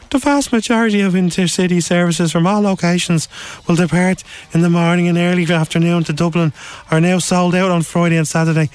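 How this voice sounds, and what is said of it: Silly put-on voice. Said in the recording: “I'm going to give him a silly voice as well”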